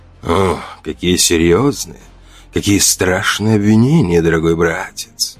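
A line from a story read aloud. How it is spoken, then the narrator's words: Hissed reply. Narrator (Russian): прошипел он в ответ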